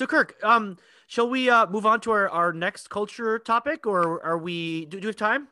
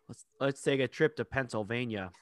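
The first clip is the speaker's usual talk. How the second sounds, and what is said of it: Terrible put-on Pennsylvania accent. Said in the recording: “that was a terrible accent.”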